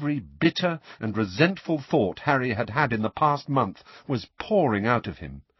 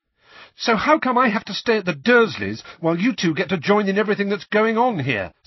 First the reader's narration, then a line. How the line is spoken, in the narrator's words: said Harry, the words tumbling over one another in a rush, his voice growing louder with every word